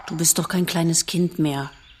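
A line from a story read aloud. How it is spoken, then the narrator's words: Plain. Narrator (German): sagt sie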